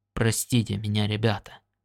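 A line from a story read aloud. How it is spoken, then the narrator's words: Muttering, turned away. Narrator (Russian): пробормотал он, отворачиваясь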